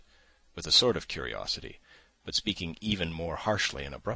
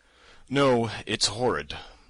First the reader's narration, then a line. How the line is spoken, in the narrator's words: yawned again